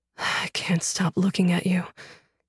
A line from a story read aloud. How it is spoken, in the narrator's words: he breathed